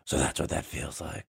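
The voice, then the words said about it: Christian Bale impression. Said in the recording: “Christian Bale is like talking to Anne Hathaway on the roof ... what did you think of my impression? ... That was very good.”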